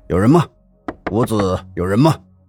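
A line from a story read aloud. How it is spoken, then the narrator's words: Calling out. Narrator (Chinese): 纪年开始喊门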